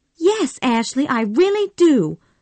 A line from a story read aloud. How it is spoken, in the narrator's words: cried Scarlett